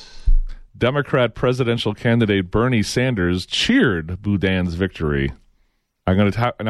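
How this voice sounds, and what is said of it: Usual voice. Nothing is said of it.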